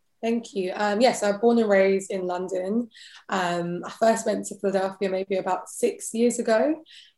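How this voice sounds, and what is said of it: British English accent. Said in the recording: “You have a British accent. You're from England.”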